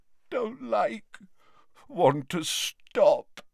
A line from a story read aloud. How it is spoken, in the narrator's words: moaned Dumbledore